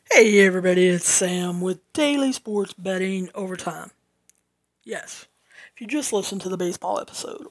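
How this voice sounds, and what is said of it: Southern American accent. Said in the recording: “you talk too fast. You talk with a southern accent”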